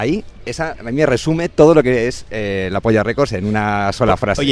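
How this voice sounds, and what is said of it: Usual voice. Nothing is said of it.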